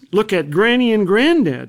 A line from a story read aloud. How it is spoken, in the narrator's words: she said